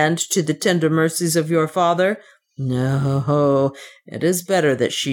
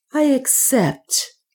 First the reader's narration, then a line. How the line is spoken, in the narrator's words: he said in a clear voice